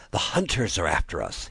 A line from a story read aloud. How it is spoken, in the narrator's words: he panted